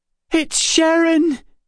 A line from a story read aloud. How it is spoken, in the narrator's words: Emma cried